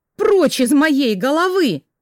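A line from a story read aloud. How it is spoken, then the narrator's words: Retreating shout. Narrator (Russian): прокричала я, пятясь назад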